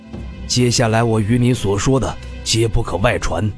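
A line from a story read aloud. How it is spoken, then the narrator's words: Serious low voice. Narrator (Chinese): 李长风一脸严肃，沉声道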